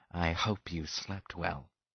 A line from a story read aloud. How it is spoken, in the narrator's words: Sims said quietly